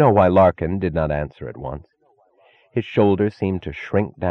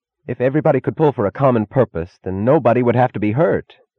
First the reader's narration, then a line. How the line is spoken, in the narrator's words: cried suddenly, in a tone of incongruous despair